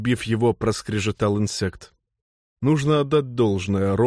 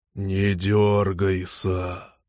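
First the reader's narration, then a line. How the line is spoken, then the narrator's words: Hoarse wheeze. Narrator (Russian): просипел Норл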